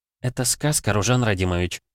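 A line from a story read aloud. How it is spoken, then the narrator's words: Gentle reminder. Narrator (Russian): мягко напомнила Михли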